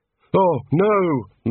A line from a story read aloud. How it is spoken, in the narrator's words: moaned Rincewind